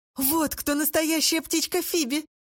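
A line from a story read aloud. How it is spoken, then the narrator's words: Laughing. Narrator (Russian): рассмеялась Роза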